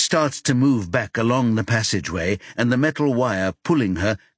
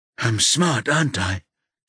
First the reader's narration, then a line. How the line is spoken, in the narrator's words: she says wearily